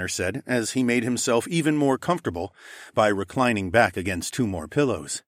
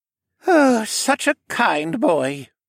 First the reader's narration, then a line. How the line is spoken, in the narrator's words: the older man sighed